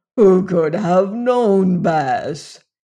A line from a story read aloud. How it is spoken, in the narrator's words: he groaned